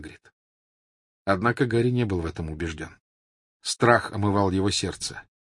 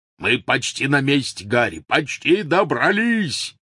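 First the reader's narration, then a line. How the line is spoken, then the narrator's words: Shouting. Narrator (Russian): прокричал Хагрид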